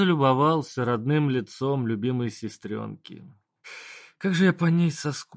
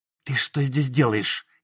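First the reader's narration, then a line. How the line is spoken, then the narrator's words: Hissed through closed lips. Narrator (Russian): не размыкая губ, процедила Света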